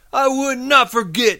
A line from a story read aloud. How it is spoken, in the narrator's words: Lenny said loudly